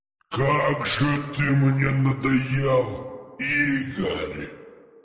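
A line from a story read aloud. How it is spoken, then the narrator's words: Low growling echoing voice. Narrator (Russian): Низкий, рычащий, отдающий эхом голос, будто расползался по воздуху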